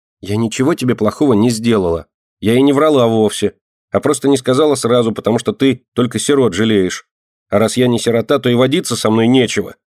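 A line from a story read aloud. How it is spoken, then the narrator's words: Angry speech. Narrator (Russian): сердито сказала Динка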